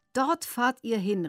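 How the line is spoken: Cheerful call. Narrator (German): rief Drago fröhlich

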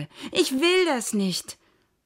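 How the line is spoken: Shouting. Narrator (German): schrie Merle

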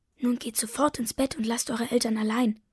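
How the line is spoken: Whisper. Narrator (German): flüstert sie

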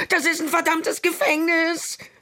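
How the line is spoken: Shout. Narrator (German): schrie er

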